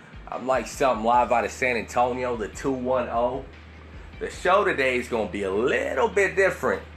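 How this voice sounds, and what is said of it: Southern twang accent. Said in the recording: “that hobo with a southern twang”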